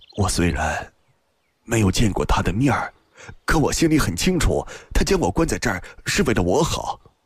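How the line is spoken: Soft sigh. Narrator (Chinese): 轻轻地叹了口气又道

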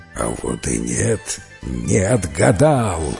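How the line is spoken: Serpent growling. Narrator (Russian): зарычал змей

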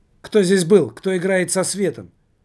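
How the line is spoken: Shouted. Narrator (Russian): выкрикнул Григорий

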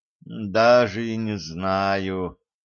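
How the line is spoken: Pensive, feigned doubtful mutter. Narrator (Russian): задумчиво пробормотал Руслан, изображая муки сомнения

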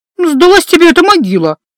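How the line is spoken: Irritated blurt. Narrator (Russian): раздраженно выпалила я

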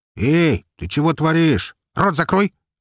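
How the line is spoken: Barked. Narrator (Russian): рявкнул

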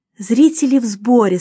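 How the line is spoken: Plain. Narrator (Russian): сказала Эмили

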